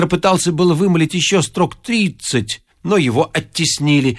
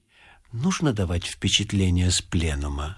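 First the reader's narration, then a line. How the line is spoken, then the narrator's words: Very quiet question. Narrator (Russian): спросил он очень тихо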